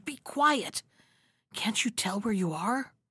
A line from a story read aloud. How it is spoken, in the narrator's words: the elder one whispered